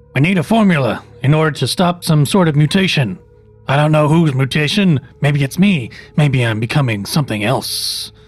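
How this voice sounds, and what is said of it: Shifting put-on TV detective accents. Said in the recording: “What is this accent? ... He's just trying, basically, all of these different accents. To try and sound like the detectives from the different detective shows he watches.”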